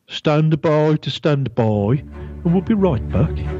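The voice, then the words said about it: Put-on regional accent. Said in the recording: “In my best regional accent”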